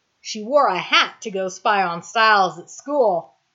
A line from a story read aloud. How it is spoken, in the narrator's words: Tom says, chuckling